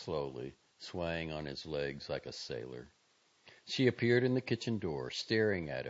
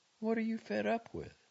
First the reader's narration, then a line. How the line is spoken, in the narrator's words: asked anxiously